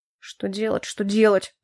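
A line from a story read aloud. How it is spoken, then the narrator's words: Grumble. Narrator (Russian): проворчал Хляйн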